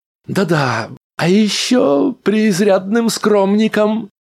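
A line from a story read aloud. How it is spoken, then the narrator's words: Giggling. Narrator (Russian): хихикнул Рэнди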